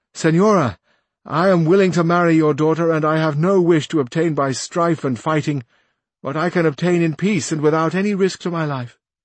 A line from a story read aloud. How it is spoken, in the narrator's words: said in a loud voice